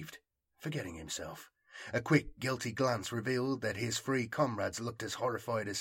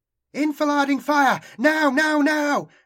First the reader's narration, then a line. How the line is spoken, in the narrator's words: shouted